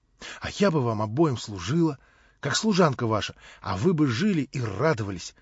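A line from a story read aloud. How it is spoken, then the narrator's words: Near whisper. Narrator (Russian): проговорила чуть не шепотом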